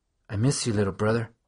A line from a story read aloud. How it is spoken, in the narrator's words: I whispered to his picture